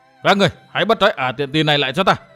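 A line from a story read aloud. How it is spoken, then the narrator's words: Shouting, trembling with anger. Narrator (Vietnamese): Gã thiếu niên áo lam giận run người quát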